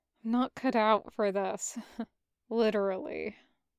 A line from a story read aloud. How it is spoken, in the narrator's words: admitted quietly